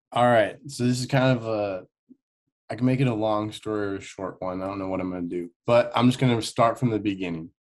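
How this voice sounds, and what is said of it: Strong Nebraska American accent. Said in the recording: “Your accent is very strong. ... Nebraska. ... That explains the accent then.”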